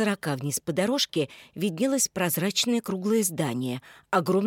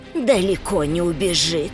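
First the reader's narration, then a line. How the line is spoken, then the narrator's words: Through gritted teeth. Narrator (Russian): процедил Мартын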